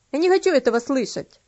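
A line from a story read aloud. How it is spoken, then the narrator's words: Boy grumbling. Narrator (Russian): пробурчал мальчик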